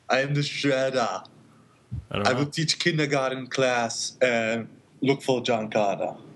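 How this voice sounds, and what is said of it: Put-on accent, imitates another person's voice. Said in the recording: “your accent ... My Schwarzenegger accent”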